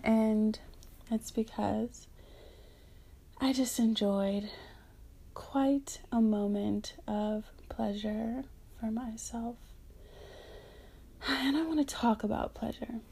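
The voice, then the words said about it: Speaking out of breath. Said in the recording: “I'm a little out of breath.”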